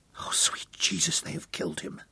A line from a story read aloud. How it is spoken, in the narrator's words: Hal whispered